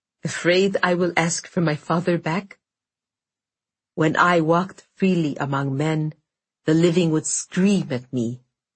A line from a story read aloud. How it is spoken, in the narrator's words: Morozko replied evenly